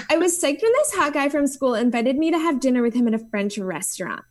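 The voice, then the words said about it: Exaggerated teenage girl voice. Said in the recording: “I'll read it in my yes. best teenage girl voice.”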